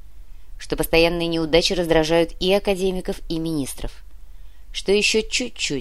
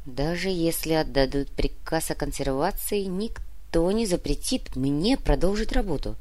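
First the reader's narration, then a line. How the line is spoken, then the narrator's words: Whispered. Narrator (Russian): прошептал Валентин Павлович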